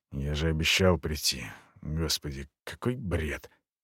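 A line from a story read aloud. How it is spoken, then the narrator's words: Muttered. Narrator (Russian): полковник пробормотал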